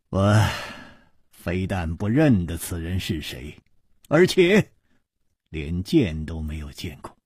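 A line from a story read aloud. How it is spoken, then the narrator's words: Sighing. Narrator (Chinese): 楚留香叹道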